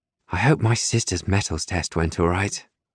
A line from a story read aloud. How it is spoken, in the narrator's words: Duck mutters